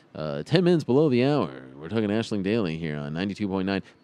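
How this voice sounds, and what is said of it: Radio announcer voice. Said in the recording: “the radio announcer voice”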